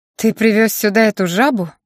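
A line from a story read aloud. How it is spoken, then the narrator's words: Scornful snort. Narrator (Russian): фыркнула Аня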